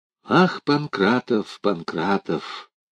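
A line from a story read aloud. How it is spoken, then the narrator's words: Quiet, sad. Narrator (Russian): так же тихо и грустно сказал Алферов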